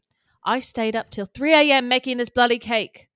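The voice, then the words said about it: Badly done put-on accent. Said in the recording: “It's the worst accent I've ever done. My accents have gotten so bad.”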